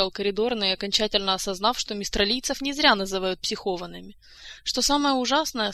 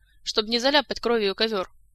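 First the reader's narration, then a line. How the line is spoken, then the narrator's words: Cold explanation. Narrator (Russian): также холодно пояснил Кантор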